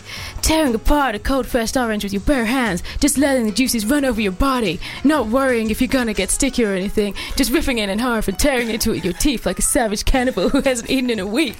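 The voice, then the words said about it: Put-on different reading voice. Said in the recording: “I'm going to do a different voice”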